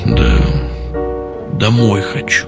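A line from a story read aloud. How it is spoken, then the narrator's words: Mumbling. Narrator (Russian): пробормотал Щипцов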